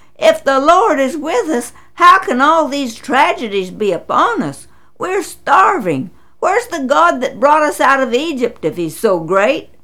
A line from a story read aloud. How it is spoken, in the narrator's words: He exclaimed